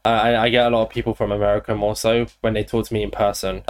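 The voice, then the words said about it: Southern English accent with Irish mix. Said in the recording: “Your accent's pretty... are you UK? ... my dad's Irish, so I have this like... where's your accent from? It's not English. ... I'm English. I'm just as Irish, so I have this like little unique mix ... I can definitely hear it”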